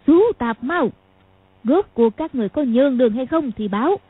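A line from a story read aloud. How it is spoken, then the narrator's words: Harsh, strained old woman. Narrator (Vietnamese): Tôn Bà Bà nói gằn giọng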